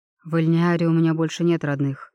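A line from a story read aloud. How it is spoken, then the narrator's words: Muffled flat reply. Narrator (Russian): глухо отозвался эльф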